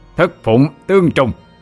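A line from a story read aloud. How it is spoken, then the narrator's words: Roaring incantation. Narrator (Vietnamese): Tiên Phụng cũng bắt ấn chú mà gầm lên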